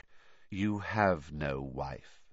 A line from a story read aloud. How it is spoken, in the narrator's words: said the cold voice, very quietly